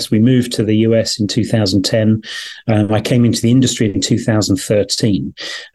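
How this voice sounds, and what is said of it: Non-American foreign accent. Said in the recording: “You can tell from my accent, not born and bred in the US.”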